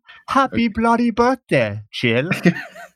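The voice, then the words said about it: Put-on English accent. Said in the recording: “I'll use my best English accent.”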